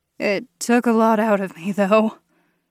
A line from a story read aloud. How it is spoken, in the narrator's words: I breathed